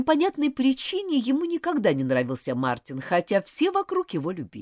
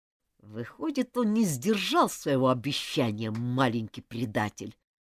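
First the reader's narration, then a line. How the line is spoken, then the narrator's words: Through gritted teeth. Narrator (Russian): процедил сквозь зубы Джулиан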